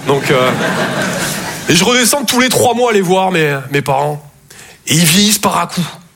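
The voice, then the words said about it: Toulouse regional French accent. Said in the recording (French): “Je viens de Toulouse à la base. Ouais, ça s'entend un peu. ... mon accent”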